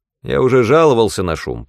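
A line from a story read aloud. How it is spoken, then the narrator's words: Grumbling man. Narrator (Russian): проворчал какой-то мужчина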